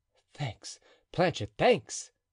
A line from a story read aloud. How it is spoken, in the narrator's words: cried Athos